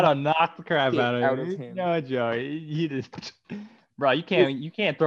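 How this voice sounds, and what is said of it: Usual voice. Nothing is said of it.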